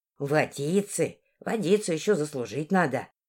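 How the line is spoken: Grumbling. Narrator (Russian): проворчала она

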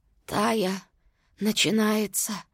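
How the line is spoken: Whisper. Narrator (Russian): прошептала она

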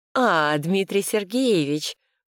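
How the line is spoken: Drawl. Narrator (Russian): протянула она

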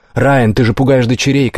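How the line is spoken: Shouting. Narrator (Russian): крикнула Эмми

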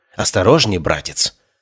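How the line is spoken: Hissing. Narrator (Russian): прошипела Хлоя

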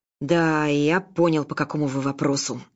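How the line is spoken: Man's growl. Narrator (Russian): рыкнул мужчина Артур

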